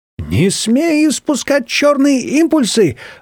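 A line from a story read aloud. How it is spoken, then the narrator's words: Shrill twin squealing. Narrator (Russian): Взвизгивали желтые близнецы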